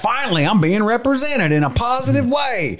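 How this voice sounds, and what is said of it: Put-on mocking accent. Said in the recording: “I'm sorry to use that accent ... that's how I imagine they talk”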